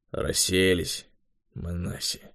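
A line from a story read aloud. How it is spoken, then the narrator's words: Grumbling. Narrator (Russian): проворчал Юрий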